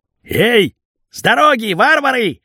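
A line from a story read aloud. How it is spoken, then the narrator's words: Shouted. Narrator (Russian): крикнул обрез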